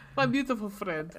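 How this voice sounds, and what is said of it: Fake Russian accent. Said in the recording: “We do some fake, fake Russian accents for the rest of this ... My Russian accent is... Heavily influenced by the fact that we used to have a cat that we said was an old Hungarian woman.”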